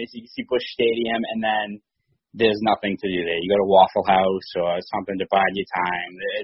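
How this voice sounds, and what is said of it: Boston accent. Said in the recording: “I love your Boston accent.”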